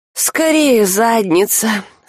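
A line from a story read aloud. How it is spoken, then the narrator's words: Sleepy mutter. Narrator (Russian): сонно пробормотал Альк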